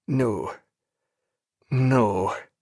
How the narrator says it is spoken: in a vague, unmeaning voice

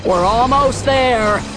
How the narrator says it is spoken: Han hollered

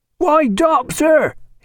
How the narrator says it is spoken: he cried

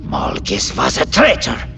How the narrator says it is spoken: Carid spat out, reflecting her heightened emotional state

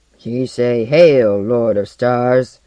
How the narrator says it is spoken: growled one of her squat escorts in Pigeon Galactic

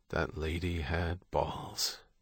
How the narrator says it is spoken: Beckett muttered

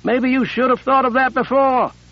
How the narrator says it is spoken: Sable yelled

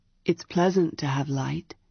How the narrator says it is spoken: he said in a soft but deep voice

